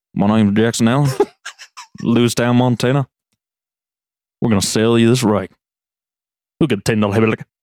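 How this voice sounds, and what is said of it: Imitated auctioneer with slight Southern accent. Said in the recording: “Can I kind of imitate it? ... just a little Southern accent ... A weird little Southern.”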